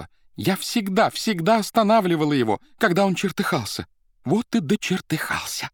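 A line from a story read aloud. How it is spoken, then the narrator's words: Tender nasal tearful exclamation. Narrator (Russian): красавица музыкальным нежным голосом, немного гнусавым после плача, воскликнула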